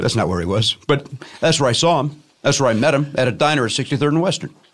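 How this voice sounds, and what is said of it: South Side Chicago accent. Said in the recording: “my dumb Southside Chicago accent”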